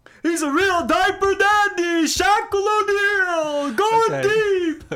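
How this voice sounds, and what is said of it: Loud sports commentator impression. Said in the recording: “your Dick Vitale impression ... you can only do it at one volume”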